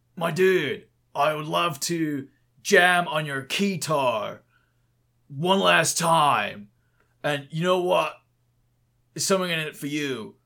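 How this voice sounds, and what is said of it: Macho bro-dude character voice. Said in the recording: “do a Chad voice ... I'm a roided up royal guard dude”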